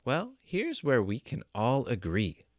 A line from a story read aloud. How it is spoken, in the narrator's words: said Two